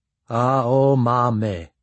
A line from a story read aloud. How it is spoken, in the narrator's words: Fukaeri said slowly, as if pondering each syllable